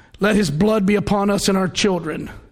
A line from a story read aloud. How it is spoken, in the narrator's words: those people in the crowd during the trial of Jesus shouted